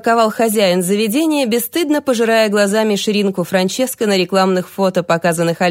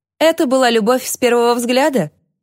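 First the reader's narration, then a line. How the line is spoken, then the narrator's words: Giggle. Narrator (Russian): хихикнул управляющий Стивен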